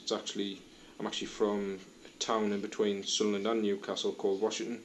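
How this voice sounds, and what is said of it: Northeast English Mackem-Geordie accent. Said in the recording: “It's got a little bit of Macaman Geordie, so that's why she couldn't place my accent at all.”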